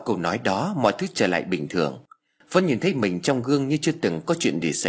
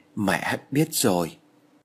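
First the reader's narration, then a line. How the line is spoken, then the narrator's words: Trembling voice. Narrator (Vietnamese): Vân run rẩy nói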